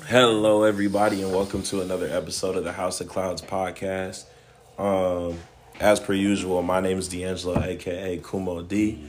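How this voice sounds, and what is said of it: Hoarse voice. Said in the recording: “my voice is a little hoarse”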